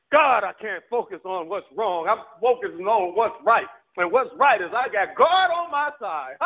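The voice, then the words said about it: Yelling, loud fervent preaching. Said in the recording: “I'm yelling”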